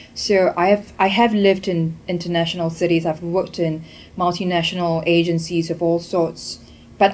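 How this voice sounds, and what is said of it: Mixed international English accent. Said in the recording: “this very bastardized accent that I have comes from a melting pot of being from Singapore, studied in Australia, lived and worked in London, Hong Kong”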